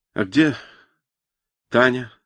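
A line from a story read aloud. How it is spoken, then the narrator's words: Plain question. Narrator (Russian): спросил он наконец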